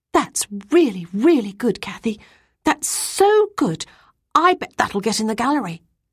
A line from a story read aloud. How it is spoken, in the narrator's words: who was a year older than me, exclaiming